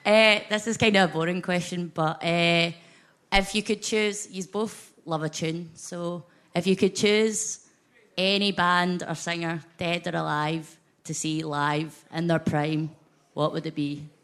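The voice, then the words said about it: Scottish accent. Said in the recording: “your Scottish accent”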